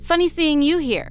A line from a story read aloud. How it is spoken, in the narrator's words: she laughed